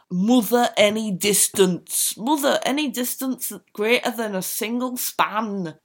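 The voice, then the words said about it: Reading that slips into Scottish accent. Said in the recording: “Oh God, that went Scottish. I don't even know what the accent was.”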